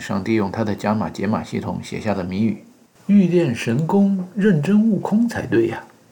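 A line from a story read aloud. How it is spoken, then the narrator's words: Exclaiming. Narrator (Chinese): 对周围的小伙伴们感叹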